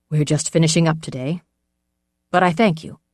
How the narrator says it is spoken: Kanik said

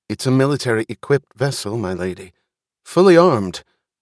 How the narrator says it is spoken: Looking awkward in his formal clothing, he blurted

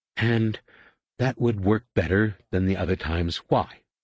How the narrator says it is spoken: Tenelkaw asked

